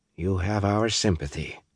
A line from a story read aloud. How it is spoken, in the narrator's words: she said softly